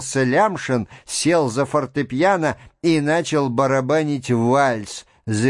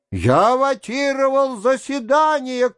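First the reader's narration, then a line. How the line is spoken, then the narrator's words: Schoolboy shouting. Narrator (Russian): крикнул гимназист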